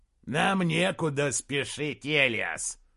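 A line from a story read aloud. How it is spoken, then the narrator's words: Growl. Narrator (Russian): прорычал Гутвульф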